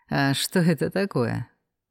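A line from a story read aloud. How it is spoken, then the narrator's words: Sad snort. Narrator (Russian): Печально хмыкнул он в ответ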